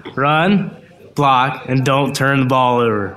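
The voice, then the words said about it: Impression of the coach's voice. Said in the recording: “I need to hear it in your best Noel Rash voice.”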